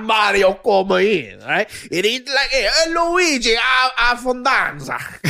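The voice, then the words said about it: Put-on Italian accent. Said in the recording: “using Italian accent ... You got the nuance of the actual Italian accent.”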